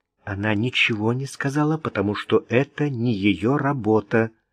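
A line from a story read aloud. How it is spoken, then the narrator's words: Calm. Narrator (Russian): спокойно произнесла Грейс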